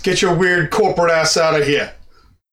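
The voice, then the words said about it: Put-on character accent. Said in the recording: “this is the kind of accent that I wanted to do. You got it down, man.”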